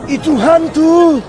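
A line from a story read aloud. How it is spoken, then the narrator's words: Frightened screaming. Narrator (Indonesian): berteriak-teriak karena takut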